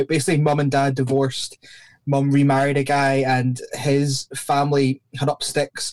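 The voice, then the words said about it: Mixed Scottish and Northern Irish accent. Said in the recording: “my accent's pretty messed up. Scottish people probably think I sound from Northern Ireland, and Northern Irish people think I'm from Scotland ... your accent was kind of a hodgepodge”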